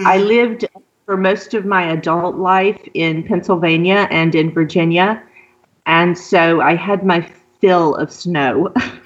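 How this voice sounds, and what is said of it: Southern US accent, Louisiana. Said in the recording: “if you pick up on the southern accent, that's where it comes from ... originally from southern Louisiana”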